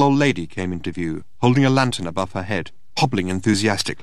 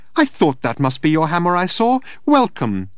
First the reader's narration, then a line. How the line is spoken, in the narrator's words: she chirped